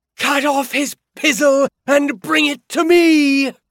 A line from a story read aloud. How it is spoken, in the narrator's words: a woman, almost certainly Petra, scream